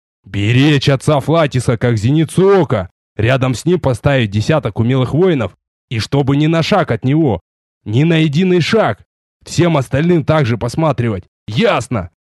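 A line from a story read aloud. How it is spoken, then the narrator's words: Loud, clear, distinct. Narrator (Russian): громко, ясно и отчетливо произнес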